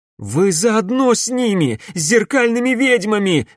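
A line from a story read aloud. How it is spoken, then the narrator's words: Exclamation. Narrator (Russian): воскликнула Камилла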